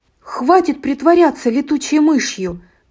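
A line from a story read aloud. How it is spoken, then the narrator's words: Shout. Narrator (Russian): крикнула Радуга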